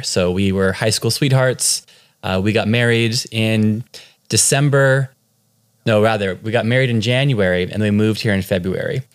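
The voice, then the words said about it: Californian American accent. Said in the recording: “my accent is from California ... I don't have a cool Irish accent”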